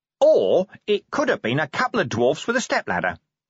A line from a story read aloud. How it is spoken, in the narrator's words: Nobby went on cheerfully